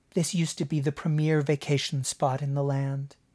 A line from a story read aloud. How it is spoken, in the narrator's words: Marin told him mournfully